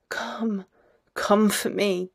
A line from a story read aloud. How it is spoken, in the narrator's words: between hushed whispers